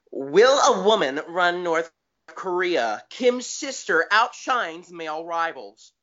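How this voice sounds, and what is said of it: Mocking liberal journalist voice. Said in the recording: “I'm going to read this in my best Libby journalist voice.”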